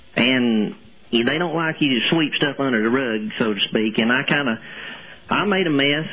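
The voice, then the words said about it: Phony put-on accent. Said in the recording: “stop using this phony accent”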